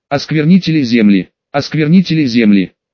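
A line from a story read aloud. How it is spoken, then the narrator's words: Pleased laughter. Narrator (Russian): рассмеялся довольный имперец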